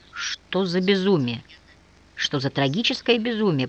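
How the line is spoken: Mumbled. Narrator (Russian): пробормотал Николай

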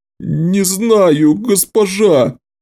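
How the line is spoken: Pitiful whine. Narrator (Russian): жалко проскулил

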